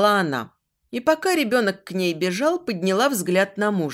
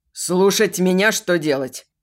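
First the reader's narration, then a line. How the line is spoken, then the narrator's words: Snapping retort. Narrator (Russian): огрызнулся Марк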